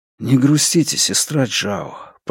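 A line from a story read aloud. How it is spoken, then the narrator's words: Whisper. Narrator (Russian): прошептал он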